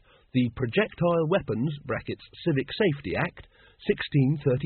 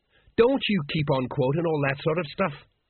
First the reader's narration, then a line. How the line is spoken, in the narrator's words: snapped Colon